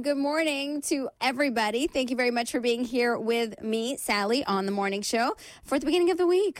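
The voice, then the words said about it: Croaky, congested voice. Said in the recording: “excuse my voice. It's a little bit croaky. ... It's just been congested for about a week. ... I'm congested”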